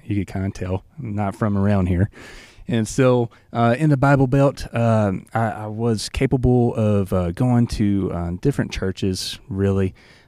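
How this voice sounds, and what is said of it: Southern US accent. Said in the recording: “I grew up in the South, probably by my accent.”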